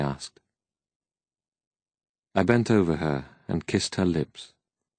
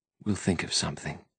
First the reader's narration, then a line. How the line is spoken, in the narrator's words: whispered